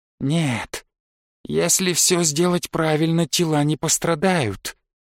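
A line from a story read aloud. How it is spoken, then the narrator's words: Soothing reassurance. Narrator (Russian): успокоил меня Шептун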